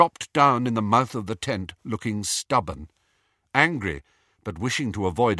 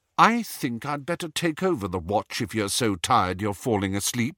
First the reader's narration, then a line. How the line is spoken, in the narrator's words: said Hermione coldly